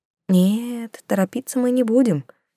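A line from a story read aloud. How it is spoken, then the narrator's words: Whispering. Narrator (Russian): шептала я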